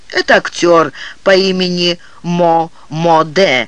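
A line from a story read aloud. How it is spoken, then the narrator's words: Plain. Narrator (Russian): ответил настоятель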